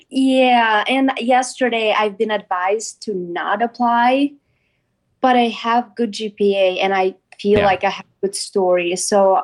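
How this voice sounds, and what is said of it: Non-native English accent. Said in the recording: “You are an English as a second language student. ... Couldn't tell by your accent.”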